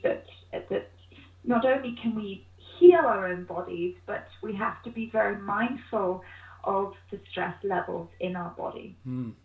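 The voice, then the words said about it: British accent. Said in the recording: “you don't sound like a local from there. Your accent is giving you away as being from nearer to my home ... I'm British”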